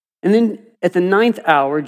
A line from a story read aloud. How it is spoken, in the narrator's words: Jesus cried out with a loud voice